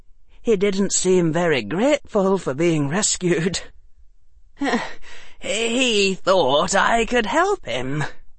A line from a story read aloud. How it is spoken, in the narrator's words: Harry said, his voice hoarse